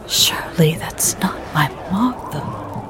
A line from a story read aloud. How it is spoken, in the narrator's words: whispered landlord